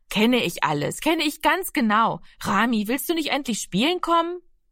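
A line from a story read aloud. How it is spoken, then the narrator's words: Called out. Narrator (German): rief sie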